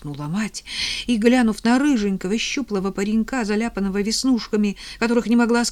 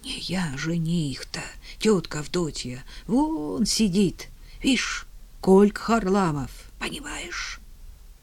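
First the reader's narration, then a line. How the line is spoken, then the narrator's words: Ashamed whisper. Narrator (Russian): Иван Красный, вмиг сваренный великим стыдом, шептал ей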